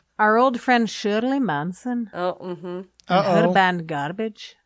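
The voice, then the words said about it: Put-on accent. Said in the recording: “I'm not even sure what accent I'm doing anymore”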